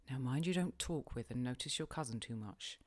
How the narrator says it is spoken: were my whispered instructions

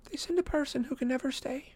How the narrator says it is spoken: she whispered

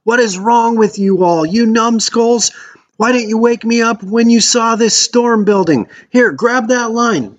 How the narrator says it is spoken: screaming back

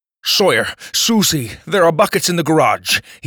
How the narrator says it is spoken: he said urgently, flecks of ice still in his beard

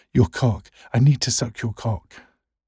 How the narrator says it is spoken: Marcus gasps

